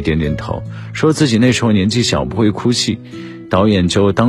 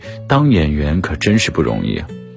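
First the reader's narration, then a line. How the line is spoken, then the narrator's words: Sighing. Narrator (Chinese): 郭德纲听罢一声叹息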